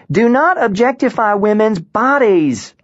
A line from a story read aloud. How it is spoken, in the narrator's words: Alaska shouted